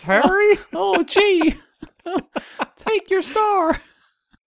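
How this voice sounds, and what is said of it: Silly fish character voice. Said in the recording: “what was that voice? ... oh, gee, I'm a fish.”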